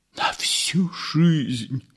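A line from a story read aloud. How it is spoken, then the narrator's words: Whisper. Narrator (Russian): прошептал Ипполит Матвеевич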